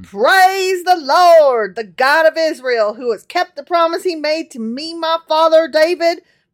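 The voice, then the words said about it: Fake southern accent, televangelist-like. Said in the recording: “all of a sudden you have like a really fake southern accent ... I imagine him as like a televangelist”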